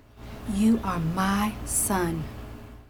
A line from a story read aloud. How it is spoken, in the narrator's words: she whispered to him